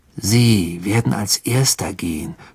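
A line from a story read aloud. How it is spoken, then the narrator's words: Growl. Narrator (German): knurrte Ron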